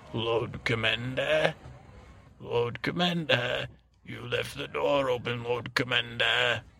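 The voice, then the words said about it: Stannis Baratheon impression. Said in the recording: “do a Stannis imitation?”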